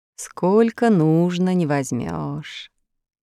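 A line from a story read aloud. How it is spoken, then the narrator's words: Bitter sigh. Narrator (Russian): вздохнул в виде горечности ребят Ильсор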